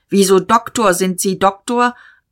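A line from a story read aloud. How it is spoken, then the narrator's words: Called out. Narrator (German): Dieterich rief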